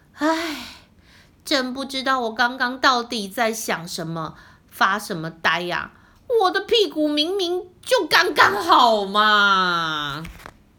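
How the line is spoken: Sighing. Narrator (Chinese): 河马波波叹了一口气，说

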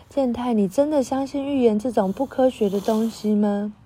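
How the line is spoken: Soft sigh. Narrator (Chinese): 真实轻轻叹息说

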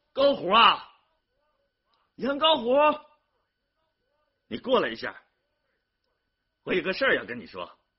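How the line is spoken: Shouting across distance. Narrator (Chinese): 隔着东拉河，对着农田基建工地喊

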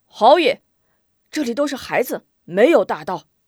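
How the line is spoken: Soldier shouting. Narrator (Chinese): 有一官兵喊道

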